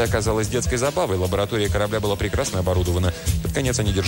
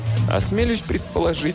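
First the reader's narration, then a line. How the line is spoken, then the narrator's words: Laughing. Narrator (Russian): засмеялся Андре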